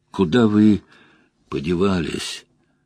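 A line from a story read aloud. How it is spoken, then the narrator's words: Hoarse question. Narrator (Russian): хриплым голосом поинтересовался Мэтт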